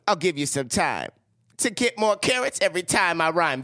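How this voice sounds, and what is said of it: Rapping Bugs Bunny voice, sounds like pimp. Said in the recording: “This is Bugs Bunny rapping... Can you say it like Bugs Bunny?... can you make it more like Bugs and less like a pimp?... you sound like a pimp.”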